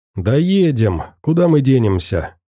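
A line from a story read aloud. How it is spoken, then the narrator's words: Cheerful reply. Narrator (Russian): весело откликнулся Никита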